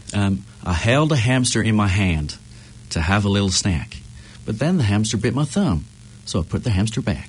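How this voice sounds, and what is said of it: Put-on Alabama Southern accent. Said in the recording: “Give us a couple of lines. Alabama-ish. ... That is really good. ... I'm impressed. That's pretty good.”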